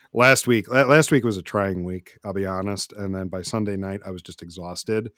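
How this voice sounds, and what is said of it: Slightly raspy voice. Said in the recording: “So my voice is a bit raspy”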